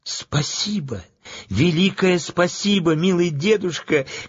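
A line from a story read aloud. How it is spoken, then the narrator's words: Fervent grateful exclamation. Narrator (Russian): горячо воскликнула Энни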